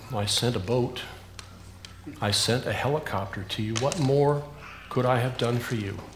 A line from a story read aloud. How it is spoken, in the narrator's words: the Lord calmly responded